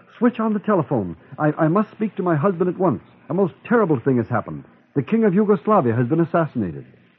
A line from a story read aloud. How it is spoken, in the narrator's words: I cried